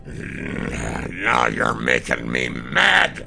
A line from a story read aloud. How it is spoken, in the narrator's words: Brenwar spat at the beast